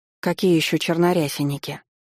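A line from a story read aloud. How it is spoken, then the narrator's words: Dejected voice asking. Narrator (Russian): Упавшим голосом поинтересовалась Элоиза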